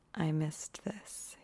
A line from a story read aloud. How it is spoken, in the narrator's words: he murmurs